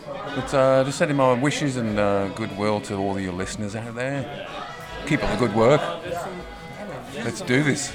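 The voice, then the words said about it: Smooth radio announcer voice. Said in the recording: “Beautiful radio voice”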